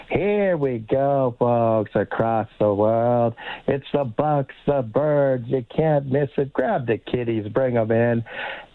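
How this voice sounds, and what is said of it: Silky impression of a sportscaster. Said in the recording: “I'm going to do a couple of impressions for you ... his silky voice”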